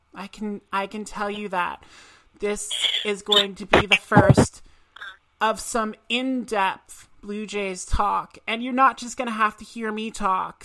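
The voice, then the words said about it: Valley Girl speaking voice. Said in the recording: “Valley Girl voice”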